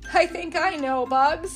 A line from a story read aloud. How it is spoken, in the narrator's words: he chuckled